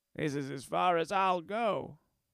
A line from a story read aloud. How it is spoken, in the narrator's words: the conductor's voice scratch from the sonophone